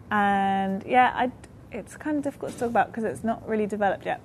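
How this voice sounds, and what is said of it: Noticeable accent. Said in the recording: “I've never heard Weather. ... It's the accent.”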